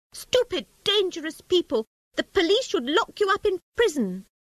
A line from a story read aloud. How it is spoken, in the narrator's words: The rat shouting angrily